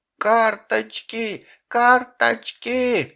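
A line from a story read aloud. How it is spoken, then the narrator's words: Terrified, anguished scream. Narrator (Russian): кричала Шурка страшным внутренним воплем, и в крике ее был покойницкий ужас и звериная тоска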